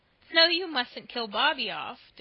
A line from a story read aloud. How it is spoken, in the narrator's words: declared Diana, laughing